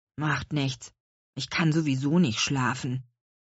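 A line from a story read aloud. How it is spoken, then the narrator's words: Grumbled. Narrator (German): brummte Louis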